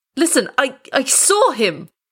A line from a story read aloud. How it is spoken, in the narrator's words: he cried